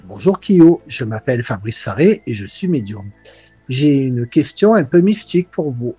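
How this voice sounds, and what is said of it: Slight southern French accent. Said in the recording (French): “il a un petit accent du sud”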